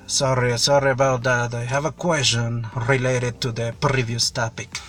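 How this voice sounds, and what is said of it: Strong throaty German or Russian accent. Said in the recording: “they say g, something which is on your throat... They do that on their throat... The accent, it is really, really, strong. People from Germany or from Russia, they do that.”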